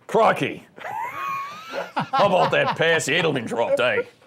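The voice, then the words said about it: Poor put-on Australian accent. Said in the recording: “Well, he's Australian. ... I don't think I got the accent right”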